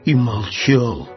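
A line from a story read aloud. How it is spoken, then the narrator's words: Thoughtful. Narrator (Russian): задумчиво сказал медвежонок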